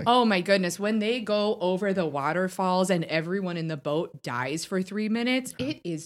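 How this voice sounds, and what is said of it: Put-on Wisconsin-style regional accent. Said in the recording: “Space Consin, am I picking up the accent correctly?”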